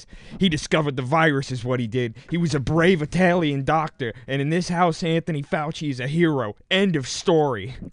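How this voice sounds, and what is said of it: Bad impression of a character's voice. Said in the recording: “That was a bad impression”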